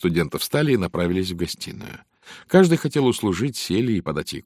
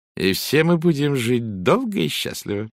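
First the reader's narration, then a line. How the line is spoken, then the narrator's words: Said with short laugh. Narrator (Russian): Валерия произнесла, коротко хохотнув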